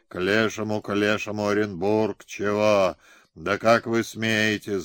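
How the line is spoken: Groaning. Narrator (Russian): застонал

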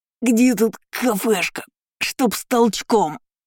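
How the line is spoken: Strained drawl through teeth. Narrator (Russian): Сквозь зубы протянул он, явно пытаясь что-то сдержать в себе

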